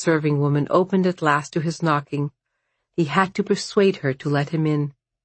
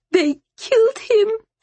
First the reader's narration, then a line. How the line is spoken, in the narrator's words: she sobbed